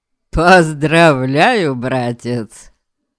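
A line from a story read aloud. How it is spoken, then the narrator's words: Hearty chuckle. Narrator (Russian): хохотнул Фелан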